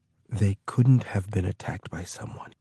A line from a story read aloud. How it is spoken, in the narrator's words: Oversay whispered